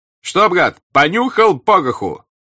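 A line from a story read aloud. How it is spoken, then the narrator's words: Shout right by ear. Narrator (Russian): прокричал ему над ухом голос Васьки Денисова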